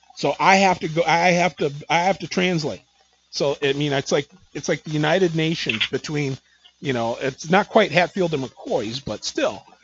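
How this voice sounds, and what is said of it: Southern American accent. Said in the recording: “I can appreciate the Southern accent.”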